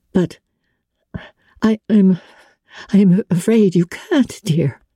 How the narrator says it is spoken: she said in an unsteady voice

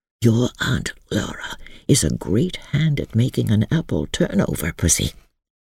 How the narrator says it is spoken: he whispered

